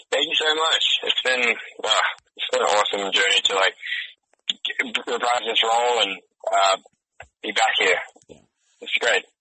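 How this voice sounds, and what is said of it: Deep Australian accent. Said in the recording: “don't lose the accent, man ... you got to keep that deep Aussie thing going”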